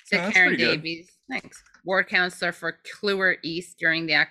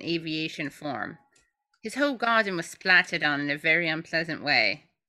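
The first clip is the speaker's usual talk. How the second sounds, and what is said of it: Put-on English accent. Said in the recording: “My English accent is so great.”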